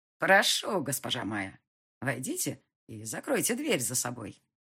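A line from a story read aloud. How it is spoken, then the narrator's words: Polite little voice. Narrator (Russian): сказал Зандер своим учтивым голоском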